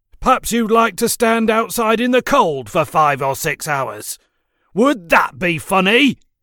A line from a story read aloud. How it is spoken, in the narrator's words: thundered in a threatening manner